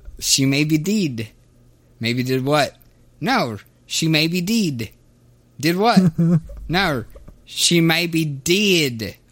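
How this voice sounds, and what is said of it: Comic put-on accent. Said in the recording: “please do that accent more”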